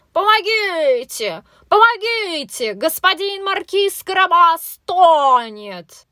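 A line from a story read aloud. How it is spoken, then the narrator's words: Sudden shout. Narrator (Russian): Вдруг кот как закричит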